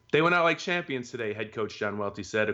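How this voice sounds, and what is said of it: Loud reading voice. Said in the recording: “reading that in such a loud voice.”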